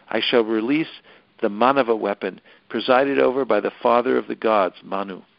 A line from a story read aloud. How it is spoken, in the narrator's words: although still feeling furious, he calmly said to Lakshman